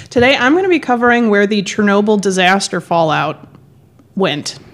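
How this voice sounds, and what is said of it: Voice worn from a cold. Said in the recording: “apologize for my voice today. I am at the tail end of a cold”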